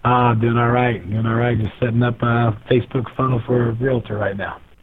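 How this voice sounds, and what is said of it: Rough, worn-out voice. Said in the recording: “apologize for my voice. I had too much fun on the last night”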